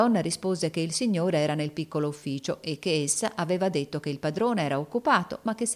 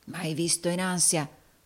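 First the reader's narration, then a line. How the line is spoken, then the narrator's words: Murmured. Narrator (Italian): mormorò Rodolfo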